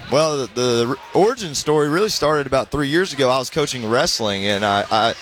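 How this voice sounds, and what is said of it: Georgia Southern US accent. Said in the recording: “I want to hear a little Georgia accent ... you're going to hear the accent ... I got it already.”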